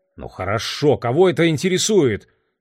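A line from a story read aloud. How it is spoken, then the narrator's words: Irritated interruption. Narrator (Russian): раздраженно оборвал его Лео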